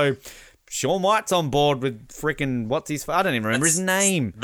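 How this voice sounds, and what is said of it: Usual voice. Nothing is said of it.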